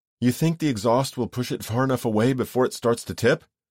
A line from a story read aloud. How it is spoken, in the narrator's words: She panted